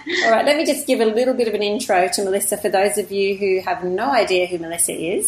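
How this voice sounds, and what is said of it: Croaky voice. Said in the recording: “excuse my voice. I'm still a bit croaky from the Mind Forum. I think I've talked too much.”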